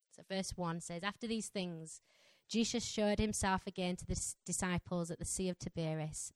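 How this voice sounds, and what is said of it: Strong Yorkshire accent. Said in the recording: “my Yorkshire accent ... my Yorkshire accent is quite strong”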